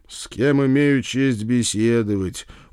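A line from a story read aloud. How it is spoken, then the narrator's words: Glum drawl. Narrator (Russian): уныло протянул я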